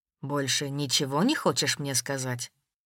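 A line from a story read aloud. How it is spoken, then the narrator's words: Quiet question. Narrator (Russian): Тихо спросил Воронцов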